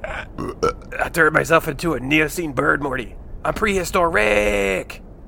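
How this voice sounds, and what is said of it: Poor impression of another person's voice. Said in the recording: “That impression was terrible.”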